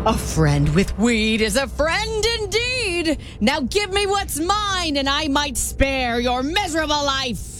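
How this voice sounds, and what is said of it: Scary leprechaun character voice. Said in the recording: “Scary ... impression ... It's the leprechaun!”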